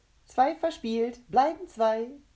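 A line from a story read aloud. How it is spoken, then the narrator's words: Cheerful singing. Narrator (German): sang fröhlich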